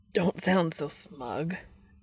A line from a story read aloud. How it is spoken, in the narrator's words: Dean answers, his voice rough and raspy